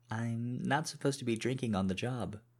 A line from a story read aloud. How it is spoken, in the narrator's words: she giggled